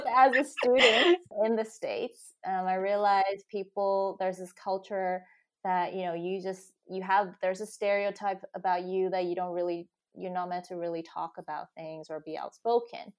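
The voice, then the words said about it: American accent. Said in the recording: “with an American accent ... have this American accent”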